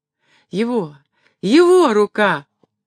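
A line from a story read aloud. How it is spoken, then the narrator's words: Joyful cry. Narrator (Russian): вскрикнула она радостно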